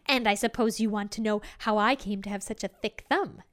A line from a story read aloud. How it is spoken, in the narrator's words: she said